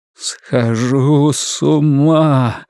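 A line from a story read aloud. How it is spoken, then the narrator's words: Moaning again. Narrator (Russian): вновь простонал Ларри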